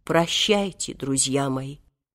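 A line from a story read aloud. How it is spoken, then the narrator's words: Tearful, sepulchral voice. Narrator (Russian): заплакал, гробовым голосом сказал им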